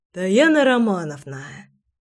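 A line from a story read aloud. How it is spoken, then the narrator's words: Sighing. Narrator (Russian): Наконец вздохнул Горыныч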